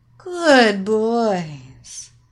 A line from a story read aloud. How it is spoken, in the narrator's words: mocked